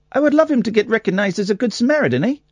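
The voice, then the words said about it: Put-on Canadian accent. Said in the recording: “that's a really good Canadian accent, eh?”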